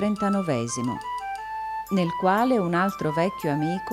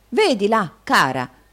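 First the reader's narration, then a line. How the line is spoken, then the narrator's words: Stout provincial man's shout. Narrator (Italian): gridò il grosso provinciale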